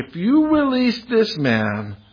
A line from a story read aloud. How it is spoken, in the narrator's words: the Jews cried out saying